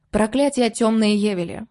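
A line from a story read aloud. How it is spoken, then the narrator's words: Plain. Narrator (Russian): ответили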